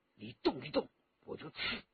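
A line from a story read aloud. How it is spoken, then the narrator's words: Low voice. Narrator (Chinese): 霍青松用汉语低声地说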